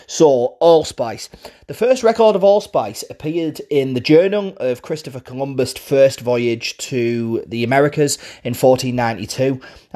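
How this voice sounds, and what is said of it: Middlesbrough northeast English accent. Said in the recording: “my Borough accent. I'm from Middlesbrough in the northeast of England.”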